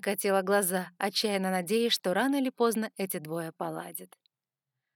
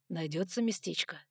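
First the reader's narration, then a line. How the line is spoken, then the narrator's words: Hoarse question. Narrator (Russian): хрипло спросил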